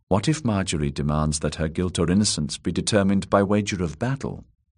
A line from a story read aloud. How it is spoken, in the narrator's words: said in a quiet voice